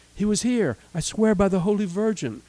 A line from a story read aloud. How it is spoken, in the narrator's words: cried the frightened Francisco